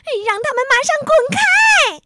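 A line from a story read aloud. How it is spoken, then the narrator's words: Stamping, angry shout. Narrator (Chinese): 霸道小姐跺着脚大喊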